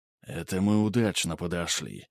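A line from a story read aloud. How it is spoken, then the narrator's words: Barely audible whisper. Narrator (Russian): почти на грани слышимости прошептал Ганс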